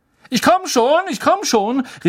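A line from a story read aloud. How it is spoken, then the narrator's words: Calling from afar. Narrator (German): rief Percy am anderen Ende der Schülerschlange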